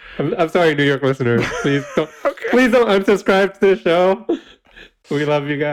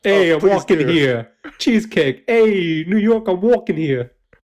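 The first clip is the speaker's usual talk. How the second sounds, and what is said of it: Put-on New York accent. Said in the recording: “you have to do it in a New York accent too ... we're judging your New York accent”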